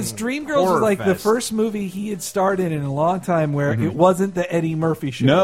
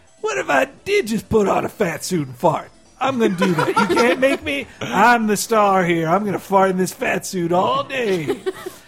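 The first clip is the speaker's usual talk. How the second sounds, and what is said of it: Imitates another person's voice. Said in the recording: “Your Eddie Murphy impression right there. He's so good.”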